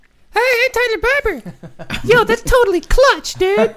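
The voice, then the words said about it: Imitates another person's voice. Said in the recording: “I can do my Tyler voice.”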